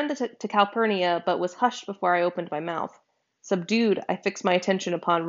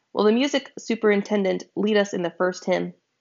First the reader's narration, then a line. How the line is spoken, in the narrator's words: said